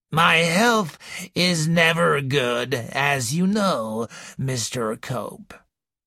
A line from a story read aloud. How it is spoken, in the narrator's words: wheezed the old lady